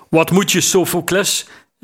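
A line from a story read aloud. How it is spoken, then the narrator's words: Calling from the roof. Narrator (Dutch): riep een stem op het dak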